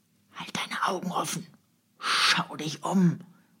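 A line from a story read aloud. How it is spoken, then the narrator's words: Hissed. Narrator (German): zischte eine Stimme hinter Michael Strogoff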